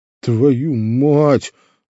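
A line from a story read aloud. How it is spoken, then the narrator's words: Exhaled into phone. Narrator (Russian): выдохнул в трубку Камышов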